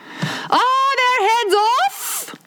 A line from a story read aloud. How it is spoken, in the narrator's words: shouted the queen